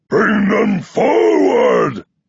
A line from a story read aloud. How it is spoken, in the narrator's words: he shouts